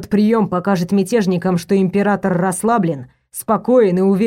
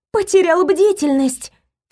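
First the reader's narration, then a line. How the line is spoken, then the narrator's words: Cried out. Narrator (Russian): вскрикнула я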